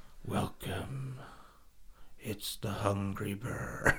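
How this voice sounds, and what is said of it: David Attenborough impression. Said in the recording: “are you going to be the next David Attenborough? ... Can you do his voice? ... Something like that, isn't it?”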